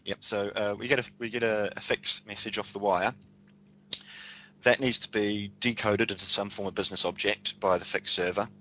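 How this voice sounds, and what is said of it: Speaks with a noticeable accent. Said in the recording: “Did you say fax, like a paper fax? ... No, fix, F-I-X. ... That'll be my accent.”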